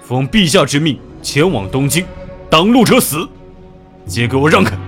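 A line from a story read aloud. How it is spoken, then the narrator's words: Loud roar. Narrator (Chinese): 谭启 大声吼道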